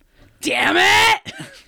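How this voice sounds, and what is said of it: Bakugo impression. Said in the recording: “your best Bakugo impression ... Nailed it. I think that was him.”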